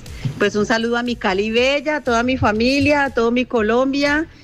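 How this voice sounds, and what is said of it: Colombian Cali accent. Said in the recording (Spanish): “Tu acento caleño no se pierde.”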